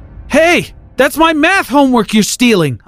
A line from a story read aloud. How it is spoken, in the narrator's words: I yelled after him